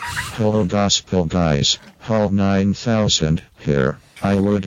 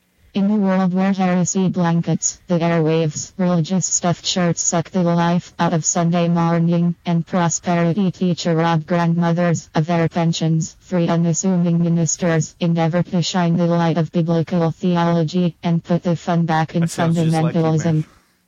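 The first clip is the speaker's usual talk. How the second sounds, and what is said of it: Imitates another person's voice. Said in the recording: “I can do impressions. Here is my David impression.”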